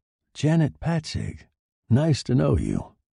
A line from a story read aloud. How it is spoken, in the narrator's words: Freelane said in a perfectly natural voice